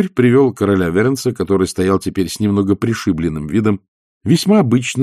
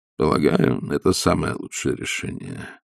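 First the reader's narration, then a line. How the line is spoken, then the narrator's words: Sad. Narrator (Russian): печально сказал граф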